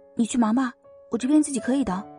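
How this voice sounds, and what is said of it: Speaking softly. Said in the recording (Chinese): “小声的说道”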